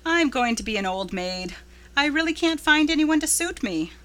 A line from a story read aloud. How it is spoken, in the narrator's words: laughed Anne